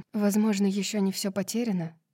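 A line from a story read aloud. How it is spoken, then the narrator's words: Quiet. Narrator (Russian): тихо сказала Гипаксия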